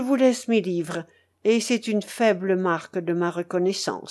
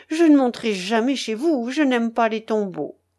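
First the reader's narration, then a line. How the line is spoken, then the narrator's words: Vehement exclamation. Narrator (French): s'écria le curé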